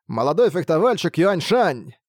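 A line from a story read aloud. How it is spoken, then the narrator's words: Shout of recognition. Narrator (Russian): Узнав этого человека, закричал Лань Юй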